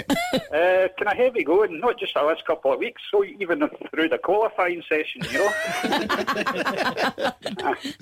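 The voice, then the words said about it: Slight Scottish accent. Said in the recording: “You got a wee bit of a Scottish twang to your voice there”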